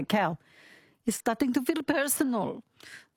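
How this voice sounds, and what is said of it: Bad put-on French accent. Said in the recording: “my French accent, which is very bad”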